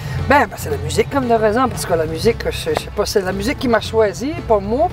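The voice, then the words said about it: Endearing Magdalen Islands French accent. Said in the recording (French): “ton accent attachant que tu viens des Îles-de-la-Madeleine”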